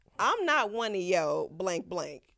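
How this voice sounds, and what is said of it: Imitated stern Black mother voice. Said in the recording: “in my best black mama voice,”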